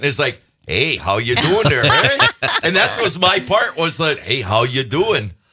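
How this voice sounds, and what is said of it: Put-on Wisconsin accent. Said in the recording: “a Wisconsin version of the Wisconsin accent.”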